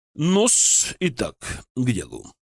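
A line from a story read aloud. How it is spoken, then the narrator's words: Solemn. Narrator (Russian): торжественно сказал Толубеев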